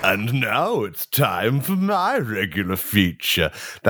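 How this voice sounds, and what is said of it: Spooky voice. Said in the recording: “That's a spooky voice”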